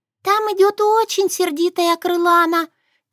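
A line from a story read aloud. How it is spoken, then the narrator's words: Squeaky voice. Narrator (Russian): пискнула из угла Тишуна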